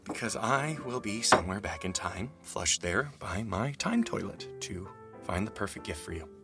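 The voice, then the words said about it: Supervillain-like voice. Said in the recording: “why do I sound like a supervillain?”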